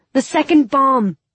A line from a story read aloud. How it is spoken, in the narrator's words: I yelled